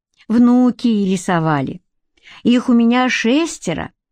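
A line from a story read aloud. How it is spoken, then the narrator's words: Explaining. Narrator (Russian): пояснил Юхан Мацевич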